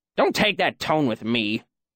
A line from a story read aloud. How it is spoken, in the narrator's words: Manette grumbled